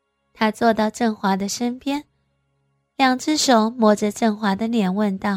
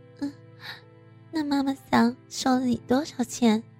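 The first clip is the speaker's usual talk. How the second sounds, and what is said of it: Quiet, hushed question. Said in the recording (Chinese): “小声问道”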